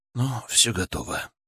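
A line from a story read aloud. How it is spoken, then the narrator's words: Exhaled. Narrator (Russian): выдохнул я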